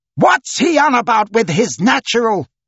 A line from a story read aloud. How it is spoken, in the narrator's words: People shouted from all quarters